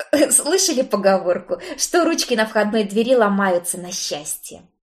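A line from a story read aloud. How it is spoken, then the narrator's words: Nervous chuckle. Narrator (Russian): нервно хохотнул Стэн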